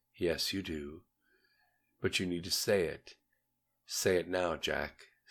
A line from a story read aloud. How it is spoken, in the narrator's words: said Knorr very softly, very smoothly